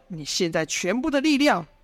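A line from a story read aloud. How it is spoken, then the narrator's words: Shouting. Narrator (Chinese): 赵天烈呐喊道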